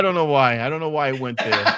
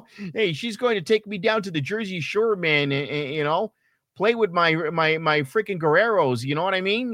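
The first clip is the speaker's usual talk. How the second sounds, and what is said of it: Put-on northern US accent. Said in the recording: “you just jumped into that northern accent.”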